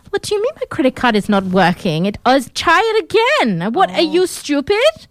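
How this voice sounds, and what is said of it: Mock Russian-German accent, rude tone. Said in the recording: “the accent is interesting... You do great accent... That's not a very good, accurate version of her accent... she's Russian born who moved to Germany, so it's a bit of a combination of those accents... I'm doing an a-hole accent”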